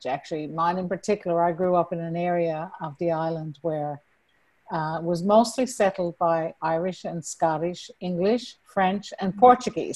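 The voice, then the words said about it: Newfoundland accent with Irish tinge. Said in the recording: “a little bit of a Celtic tinge to it compared to the rest of Canada. So that's where you'll hear the Irish accent coming out with me ... I've lost a lot of my Newfoundland accent”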